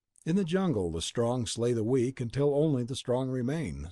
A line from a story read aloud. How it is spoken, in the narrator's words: said Tanub